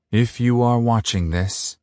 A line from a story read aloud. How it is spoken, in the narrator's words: he said gravely